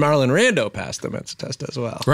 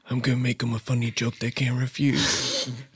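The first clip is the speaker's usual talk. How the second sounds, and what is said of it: Marlon Brando impression. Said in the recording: “my celebrity impression... This is Marlon Rando.”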